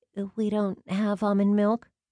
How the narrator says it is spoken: the girl stammered

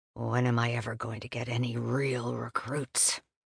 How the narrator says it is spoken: He muttered

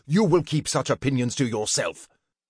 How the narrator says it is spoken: said harshly

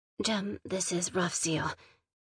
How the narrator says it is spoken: said quietly

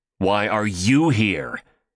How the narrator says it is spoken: Seth snapped right back

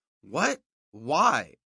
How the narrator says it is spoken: I managed to stutter, though I could hear the uncertainty in my voice

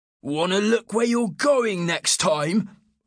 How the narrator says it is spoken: Another shouted

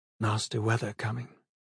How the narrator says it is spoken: he said, his voice soft

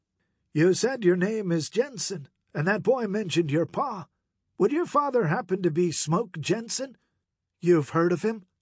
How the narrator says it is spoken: Morgan chuckled

